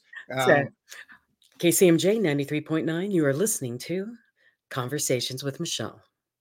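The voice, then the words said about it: Smooth radio announcer voice. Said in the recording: “That voice, she, listen to this, people. That radio voice is just, you got such a great voice.”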